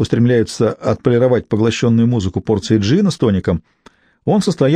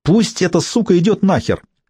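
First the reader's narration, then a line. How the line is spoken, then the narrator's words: Shrill woman's voice from below. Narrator (Russian): донесся до меня откуда-то снизу визгливый женский голос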